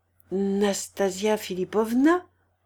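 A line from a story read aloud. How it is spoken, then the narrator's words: Stammered. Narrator (French): balbutia le prince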